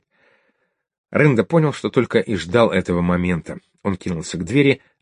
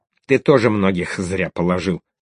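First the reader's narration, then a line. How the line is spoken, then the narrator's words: Snapped back. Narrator (Russian): огрызнулся Рында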